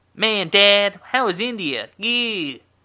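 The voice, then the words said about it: High-voiced Aziz Ansari impression. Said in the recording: “I just got a high voice ... that wasn't a good impression ... in my head, that just sounds exactly like Aziz”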